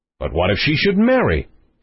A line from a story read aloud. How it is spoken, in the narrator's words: exclaimed the king, in sudden consternation at the idea